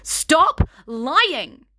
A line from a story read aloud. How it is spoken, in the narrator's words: she yelled in her face